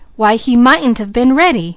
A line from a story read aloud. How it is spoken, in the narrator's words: he exclaimed